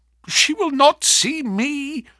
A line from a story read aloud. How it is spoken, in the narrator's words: cried Ferguson